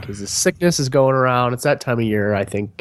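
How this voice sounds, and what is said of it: Congested, plugged-nose voice. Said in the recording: “if I sound like my nose is plugged, it's because it is... As soon as I heard your voice, I was like, oh, I gotta go make tea”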